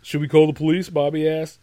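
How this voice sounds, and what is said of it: Very deep character voice, like Gohan. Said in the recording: “Bobby has a very deep voice for an 8-year-old. Kind of like Gohan.”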